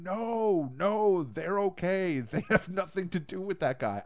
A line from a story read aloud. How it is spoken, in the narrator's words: screaming this person's name, saying